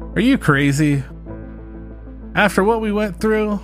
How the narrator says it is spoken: Lily exclaimed

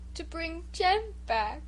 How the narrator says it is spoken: sobbed Bruce

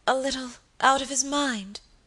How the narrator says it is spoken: faltered Lady Audley

